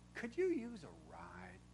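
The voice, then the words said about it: Kind, gentle, smiling voice. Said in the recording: “in my kindest voice, with a smile on my face”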